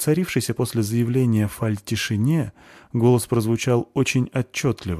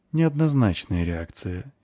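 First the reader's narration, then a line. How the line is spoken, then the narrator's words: Calm remark. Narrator (Russian): спокойно отметил Риордон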